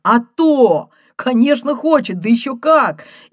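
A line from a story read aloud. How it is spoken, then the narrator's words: Joyful bark. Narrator (Russian): Он радостно гаркнул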